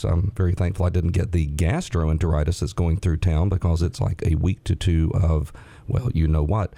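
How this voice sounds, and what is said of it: Hoarse, raspy voice. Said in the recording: “apologize for my voice. If it doesn't come through very well, it's because I'm a touch hoarse today... it gives me a little bit of a laryngitis... I apologize for the raspy voice today”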